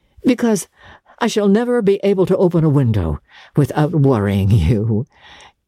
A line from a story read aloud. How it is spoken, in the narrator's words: he rejoined, laughing also